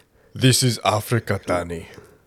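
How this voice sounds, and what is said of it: Put-on African accent. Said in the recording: “I can only do Blood Diamond African.”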